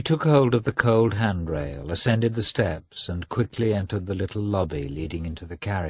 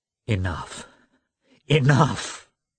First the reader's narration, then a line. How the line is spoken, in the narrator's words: cried, vainly trying to give a severe expression